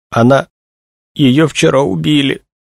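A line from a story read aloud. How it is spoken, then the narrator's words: Strained, forced out. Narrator (Russian): выдавила Тришина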